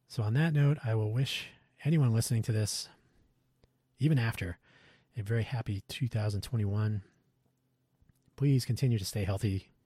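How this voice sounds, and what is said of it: Strained, worn-out voice. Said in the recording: “I hope my voice improves a little bit, because right now it feels like I've been, it's like I've been singing the Star Spangled Banner all day... My voice is sounding pretty bad”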